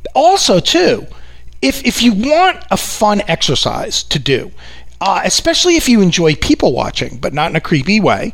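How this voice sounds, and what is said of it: New York accent. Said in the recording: “my New York accent really comes out. If you think I have it bad now”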